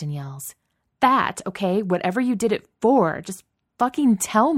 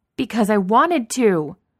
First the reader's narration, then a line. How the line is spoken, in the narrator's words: She yells it